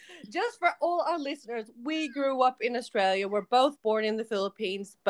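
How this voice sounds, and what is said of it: Weird American-sounding accent. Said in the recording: “Do you hear our accent already? We're already talking freaking American ... gave us a weird American accent ... that accent has not really left us”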